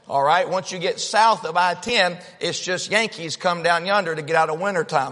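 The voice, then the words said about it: Strong Southern US accent. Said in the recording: “I'm very southern. I'm from the state of Georgia ... my accent ... then I have to just spell it because my accent ... some of y'all are worried you'll need a translator”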